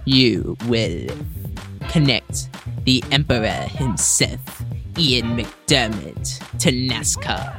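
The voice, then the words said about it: Imitates Emperor Palpatine's voice. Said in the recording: “Love the impersonation... That's your Emperor Palpatine?”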